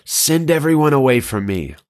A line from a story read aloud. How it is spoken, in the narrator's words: Joseph could no longer keep his composure in front of all of his attendants, so he called out